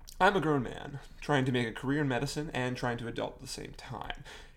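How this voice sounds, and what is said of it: Strong regional accent. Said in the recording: “My accent is stronger than I ever thought it would be ... this is how it kind of actually sounds”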